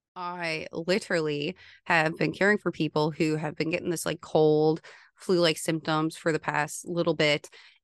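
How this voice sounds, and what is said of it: Voice not at its best. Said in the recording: “I don't know if you guys can tell, my voice is like not the best.”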